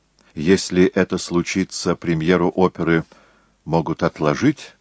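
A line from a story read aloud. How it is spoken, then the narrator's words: Plain. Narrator (Russian): сказал Моцарт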